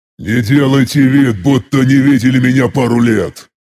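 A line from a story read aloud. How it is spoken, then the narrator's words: Irritated growl. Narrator (Russian): Как всегда раздраженно прорычал он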